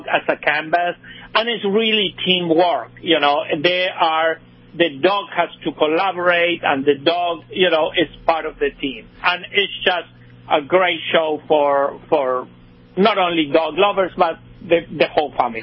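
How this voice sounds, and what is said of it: Spanish accent. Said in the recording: “my Spanish accent”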